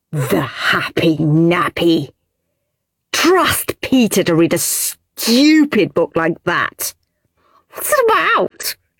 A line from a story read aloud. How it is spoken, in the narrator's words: asked Henry, snorting